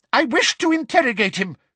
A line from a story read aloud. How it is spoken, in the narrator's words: shouted Umbridge angrily